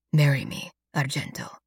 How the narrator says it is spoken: he whispers into my ear

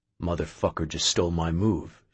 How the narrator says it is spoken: Sho mumbled

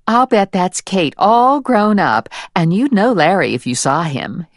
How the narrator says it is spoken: his mother said

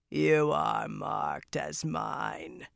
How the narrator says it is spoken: the great lord rasped

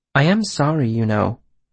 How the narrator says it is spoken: said softly

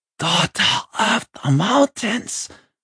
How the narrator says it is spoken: he groaned

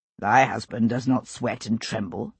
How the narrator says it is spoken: he said dryly

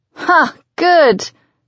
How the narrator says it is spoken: she laughs

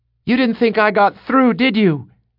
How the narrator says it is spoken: she shouted at him above the din of men and horses

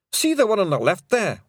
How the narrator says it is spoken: whimpered a Pictsy

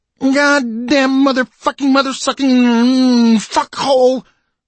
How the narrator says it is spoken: his son screamed

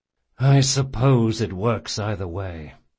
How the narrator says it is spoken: said Jean with a sigh

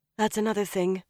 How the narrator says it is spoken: Elaine sighed

